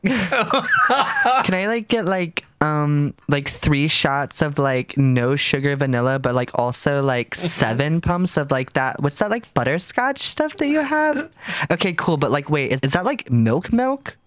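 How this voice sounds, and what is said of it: Valley Girl voice. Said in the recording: “I have Valley Girl, which I named Betch”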